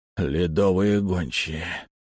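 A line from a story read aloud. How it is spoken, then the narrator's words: Sudden hoarse wheeze. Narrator (Russian): прохрипел вдруг Лавр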